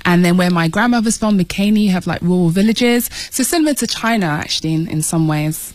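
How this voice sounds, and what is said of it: British accent. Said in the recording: “you might have been able to tell from ... accent that you grew up in the UK. It's great to have another Brit”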